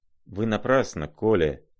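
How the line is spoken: Mutter. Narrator (Russian): пробормотал

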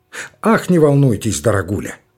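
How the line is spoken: Plain. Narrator (Russian): говорит директор

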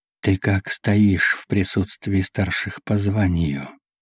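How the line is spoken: Flat colorless question. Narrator (Russian): Бесцветным голосом осведомился мангуст

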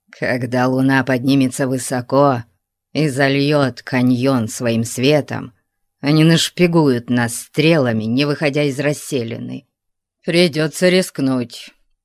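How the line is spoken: Grumbling. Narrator (Russian): проворчал Конан

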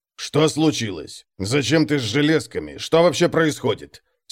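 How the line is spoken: Angry question. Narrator (Russian): сердито спросил Конрад

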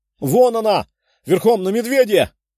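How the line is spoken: Someone shouting. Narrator (Russian): прокричал кто-то

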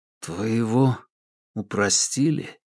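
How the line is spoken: Barely audible question. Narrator (Russian): едва слышно спросил Паскаль

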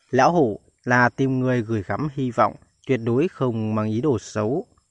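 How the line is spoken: Warm sincere old man. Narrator (Vietnamese): Nhàn Vân lão nhân mỉm cười chân thành mà nói

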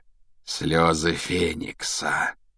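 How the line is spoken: Thoughtful drawn-out words. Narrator (Russian): протянул Реддл в задумчивости

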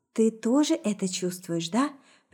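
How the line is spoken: Very quiet whisper. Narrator (Russian): прошептала совсем тихо

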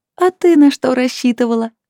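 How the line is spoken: Laughing. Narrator (Russian): рассмеялась Лилит

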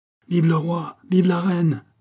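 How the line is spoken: Shouted. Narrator (French): cria Billot

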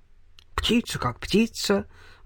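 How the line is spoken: Gruff mutter. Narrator (Russian): буркнул Хуберт

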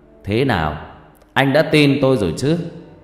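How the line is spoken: Laughing loudly. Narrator (Vietnamese): Thầy Năm cười to rồi bảo

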